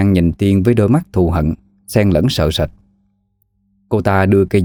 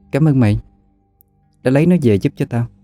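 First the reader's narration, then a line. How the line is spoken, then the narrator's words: Smiling. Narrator (Vietnamese): Cô mỉm cười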